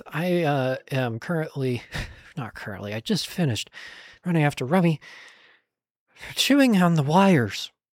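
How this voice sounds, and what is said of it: Slightly out of breath. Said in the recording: “I sound a little out of breath.”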